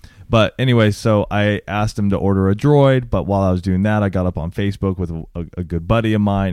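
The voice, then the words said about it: Unusually deep, rough voice. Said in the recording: “my throat's not 100% here for the last couple of days. So if I sound really deep, that's why ... sexy radio voice ... I sound different”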